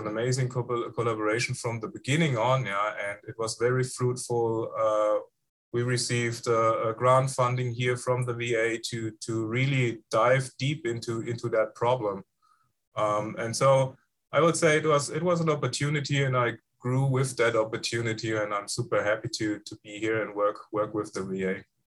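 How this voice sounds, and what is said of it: Foreign accent. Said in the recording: “you've got an awesome accent, and you probably have one of the best accents on the podcast so far ... the best foreign accent ... it makes you sound very distinguished”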